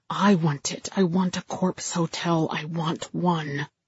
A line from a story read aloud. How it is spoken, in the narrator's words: I was whispering into my audio recorder